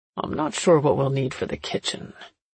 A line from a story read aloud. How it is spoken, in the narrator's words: Dad mumbled to me